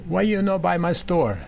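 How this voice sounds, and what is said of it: Heavy Italian accent. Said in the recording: “in heavy Italian accent”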